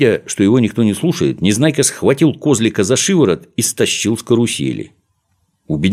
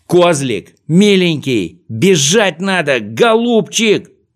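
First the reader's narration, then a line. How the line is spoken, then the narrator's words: Desperate shout. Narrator (Russian): закричал Незнайка в отчаянии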